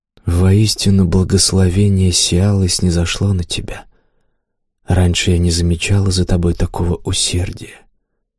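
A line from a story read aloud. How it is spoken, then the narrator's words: Whispered. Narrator (Russian): Лайна прошептала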